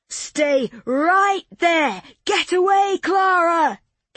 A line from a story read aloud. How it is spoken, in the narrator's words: came a shout from the doorway